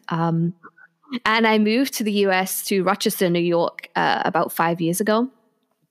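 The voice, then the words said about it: British accent. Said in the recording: “I'm originally from the UK. You might be able to tell that by my accent.”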